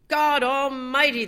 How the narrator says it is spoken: the man cried

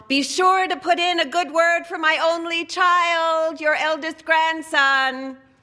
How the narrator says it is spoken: Nota's wife plucked up courage and called out to her dead father-in-law

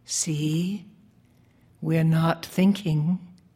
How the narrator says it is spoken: I whispered in his ear

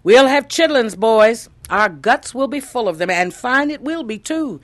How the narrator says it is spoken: exclaimed

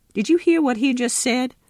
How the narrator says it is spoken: sputtered Pappy

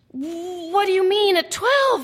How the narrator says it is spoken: Mariana cries out

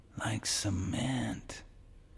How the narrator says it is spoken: Kiowa whispered in the dark

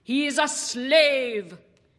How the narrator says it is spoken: repeats loudly

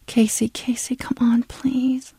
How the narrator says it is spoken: Tina murmured

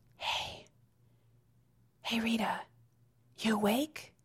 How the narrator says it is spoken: she whispers

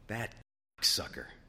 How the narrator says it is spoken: Gordon said in a harsh whisper

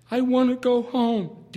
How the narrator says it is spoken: DJ cried

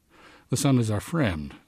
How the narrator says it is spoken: said Fell, nervously

